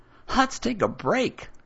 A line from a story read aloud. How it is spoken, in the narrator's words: the boy exclaims